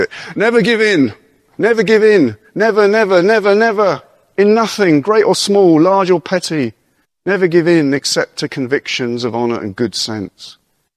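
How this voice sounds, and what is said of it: Winston Churchill impression. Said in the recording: “Winston Churchill ... I'll do the accent.”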